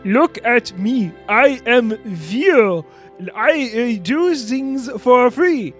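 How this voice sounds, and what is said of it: Imitates another person's voice. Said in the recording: “That was my impression of you. ... That sounds nothing like me. ... it sounded exactly like you”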